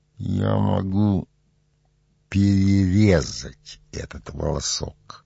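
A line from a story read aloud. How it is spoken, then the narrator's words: Through clenched teeth. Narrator (Russian): Пилат ответил сквозь зубы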